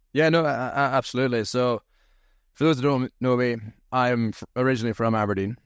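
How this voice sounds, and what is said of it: Strong Scottish accent. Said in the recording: “you got a pretty strong Scottish accent”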